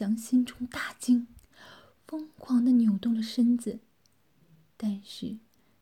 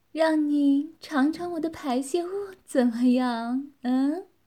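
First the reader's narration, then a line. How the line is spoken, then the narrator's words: Teasing woman. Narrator (Chinese): 女子调笑地说道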